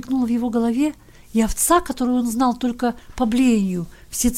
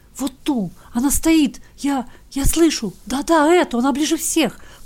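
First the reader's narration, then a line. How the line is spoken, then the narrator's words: Soundless whisper. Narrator (Russian): прошептал он, или, вернее, беззвучно пошевелил языком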